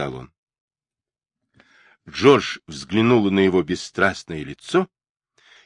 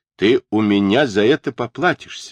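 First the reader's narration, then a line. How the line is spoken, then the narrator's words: Plain. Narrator (Russian): сказал он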